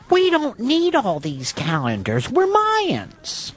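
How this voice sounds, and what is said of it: Comic Mayan character voice. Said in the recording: “That's my Mayan impression.”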